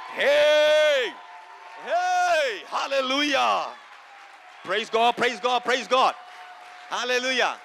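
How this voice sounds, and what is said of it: Shouting, yelling loudly. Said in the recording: “Why are you shouting? Why are you yelling?”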